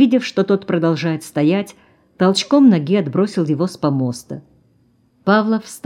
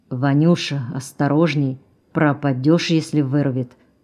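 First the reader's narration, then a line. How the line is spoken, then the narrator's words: Engine driver speaking quietly. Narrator (Russian): тихо проговорил машинист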